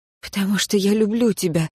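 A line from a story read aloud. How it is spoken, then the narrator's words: Breathy reply. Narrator (Russian): выдохнула я ответ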